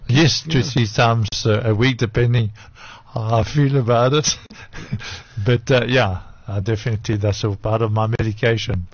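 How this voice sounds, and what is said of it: French accent. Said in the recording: “accent, a French accent.”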